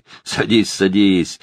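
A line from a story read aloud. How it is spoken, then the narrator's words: Mocking. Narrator (Russian): насмешливо сказал он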